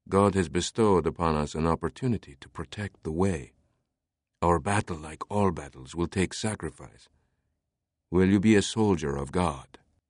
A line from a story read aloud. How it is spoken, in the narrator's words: he whispered